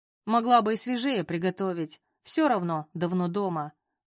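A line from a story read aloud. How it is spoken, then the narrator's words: Grumbled. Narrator (Russian): проворчал Саша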